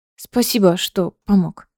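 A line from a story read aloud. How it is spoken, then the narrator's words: Muttered. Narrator (Russian): пробормотала Элида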